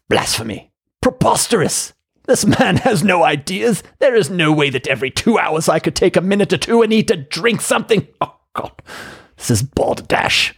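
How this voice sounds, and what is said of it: Put-on accent. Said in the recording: “Apologies for that accent.”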